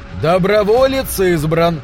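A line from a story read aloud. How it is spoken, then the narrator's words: Shouted. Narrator (Russian): прокричал Бейлиф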